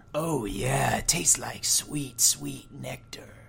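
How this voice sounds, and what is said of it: Sultry phone-sex voice. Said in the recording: “This is my phone sex voice.”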